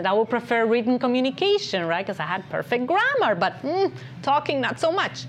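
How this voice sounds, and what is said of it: Non-native accented English. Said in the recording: “as you can hear, I have an accent ... I had a little bit more of a thicker accent”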